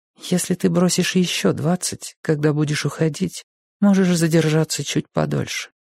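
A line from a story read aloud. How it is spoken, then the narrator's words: Quiet. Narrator (Russian): тихо сказала она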